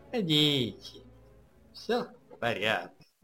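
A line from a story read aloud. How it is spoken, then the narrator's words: Usual slightly mocking tone. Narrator (Russian): обычным своим слегка намешанным тоном произнес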